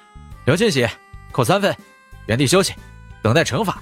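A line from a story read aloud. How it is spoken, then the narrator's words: Stern shout. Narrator (Chinese): 我严肃的吼道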